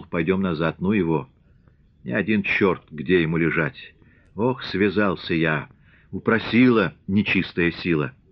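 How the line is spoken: Hoarse whisper. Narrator (Russian): Петро хрипло шепнул

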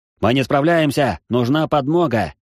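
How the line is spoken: Loud desperate wail. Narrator (Russian): Кто-то во дворе замка громко взвыл о помощи в амулет

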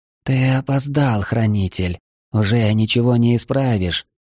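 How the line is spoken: Quiet reproach. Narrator (Russian): тихо с укором сказала она

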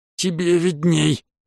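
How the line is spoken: Hoarse rasp. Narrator (Russian): прохрипел

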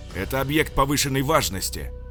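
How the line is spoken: Shouting angrily. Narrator (Russian): орал

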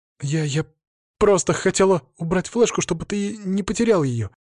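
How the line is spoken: Babbling, straining for composure. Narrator (Russian): пролепетала она, пытаясь сохранить самообладание

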